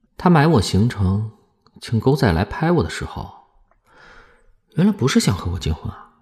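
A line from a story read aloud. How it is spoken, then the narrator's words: Flat, detached. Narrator (Chinese): 池小池抽着烟淡淡道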